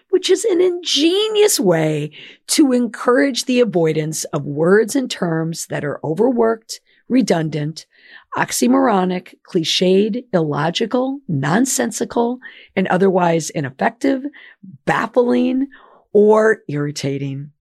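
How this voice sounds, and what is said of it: Hoarse, lost voice. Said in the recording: “as you can tell, I've lost my voice. I've been under the weather”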